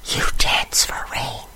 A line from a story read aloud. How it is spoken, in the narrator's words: I whisper